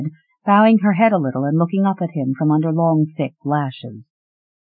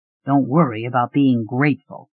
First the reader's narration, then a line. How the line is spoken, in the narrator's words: he said gruffly